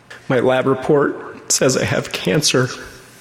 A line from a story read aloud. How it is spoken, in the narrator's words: Through sobbing tears, she said